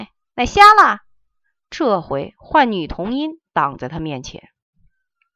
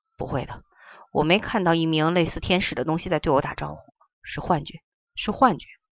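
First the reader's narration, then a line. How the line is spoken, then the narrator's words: Mumbling. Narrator (Chinese): 颜回喃喃念着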